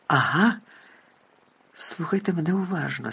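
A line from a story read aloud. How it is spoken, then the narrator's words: Very quiet, very clear. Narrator (Ukrainian): сказав Дамблдор, дуже тихо і дуже чітко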